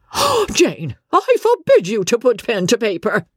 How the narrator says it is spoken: cried the Countess

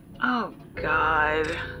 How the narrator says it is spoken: muttered

